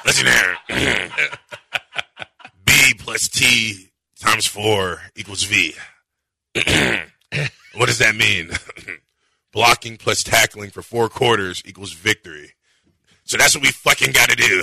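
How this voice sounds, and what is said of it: Impression of coach Dana. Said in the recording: “He nailed that impression.”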